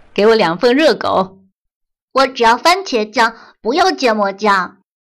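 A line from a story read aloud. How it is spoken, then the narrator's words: Father calling out. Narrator (Chinese): 爸爸就叫道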